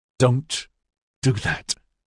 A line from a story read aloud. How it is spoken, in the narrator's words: Troblum gasped